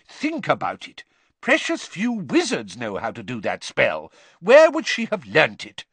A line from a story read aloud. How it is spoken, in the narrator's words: Weasley loudly